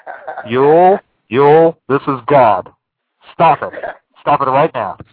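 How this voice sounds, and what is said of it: Authoritative voice-of-God impression. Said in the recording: “you were sounding a lot like God to me ... a pretty damn good impression there. I recognize that voice ... Definitely the voice of authority.”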